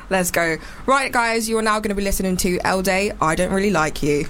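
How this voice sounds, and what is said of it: Radio announcer voice. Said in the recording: “Radio voice again.”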